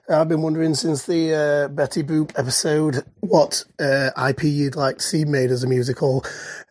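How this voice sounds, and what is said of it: Charming English accent. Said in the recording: “That was the most charming accent I've ever heard.”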